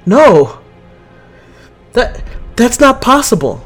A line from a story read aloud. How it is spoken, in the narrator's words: Chase says, her voice filling with panic